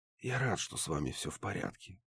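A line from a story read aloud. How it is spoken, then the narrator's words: Quiet whisper to oneself. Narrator (Russian): тихонько прошептал себе под нос я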